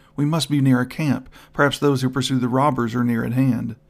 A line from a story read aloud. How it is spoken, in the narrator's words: Without a thought of new danger, she cried out